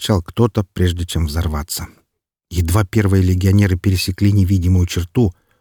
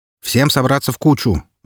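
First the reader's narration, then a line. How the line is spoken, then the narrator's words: Shout. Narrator (Russian): закричал я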